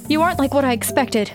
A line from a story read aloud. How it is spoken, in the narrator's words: I blurted